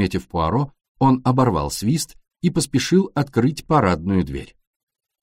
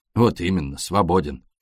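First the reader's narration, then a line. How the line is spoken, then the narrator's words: Gloomy. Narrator (Russian): мрачно сказал шофер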